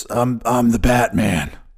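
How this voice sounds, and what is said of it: Batman character voice. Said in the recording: “did my Batman voice.”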